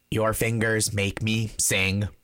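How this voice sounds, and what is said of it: Robotic voice. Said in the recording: “do a robot voice”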